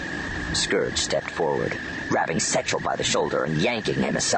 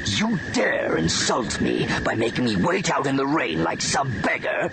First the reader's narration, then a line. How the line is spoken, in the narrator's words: He spat